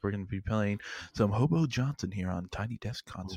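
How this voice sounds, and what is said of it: Public radio announcer voice. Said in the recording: “NPR voice.”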